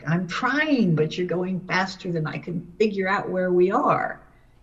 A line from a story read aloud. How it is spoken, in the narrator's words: I yelled back